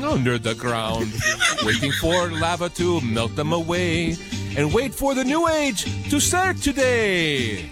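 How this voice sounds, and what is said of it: Sung with a put-on Jamaican accent. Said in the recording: “Why are we using an accent when we're singing? ... It sounds like Jamaican.”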